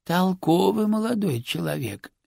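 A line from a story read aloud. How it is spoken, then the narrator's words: Lazy comment. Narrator (Russian): лениво прокомментировал Рубинович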